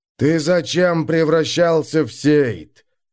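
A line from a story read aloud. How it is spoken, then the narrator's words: Thundered. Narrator (Russian): прогремел кумма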